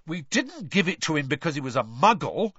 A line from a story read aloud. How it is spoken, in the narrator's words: said Fred indignantly